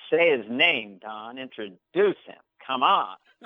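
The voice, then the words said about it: Imitates another person's voice. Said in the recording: “great impression of John Lovitz”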